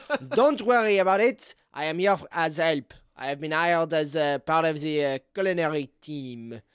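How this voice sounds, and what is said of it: Character voice with put-on accent. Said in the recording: “Miss Lovett ... I'm going to do the fucking accent”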